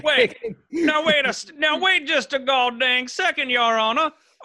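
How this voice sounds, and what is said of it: Stereotypical Southern lawyer accent. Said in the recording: “the Southern lawyer is a stereotype ... my incredibly stereotypical accent and persona”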